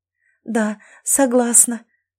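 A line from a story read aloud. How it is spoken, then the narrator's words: Tearful joyful whisper. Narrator (Russian): сквозь слезы радости зашептала я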